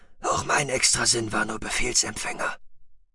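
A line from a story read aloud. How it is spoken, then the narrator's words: Hoarse murmur. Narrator (German): raunte Adlan mit heiserer Stimme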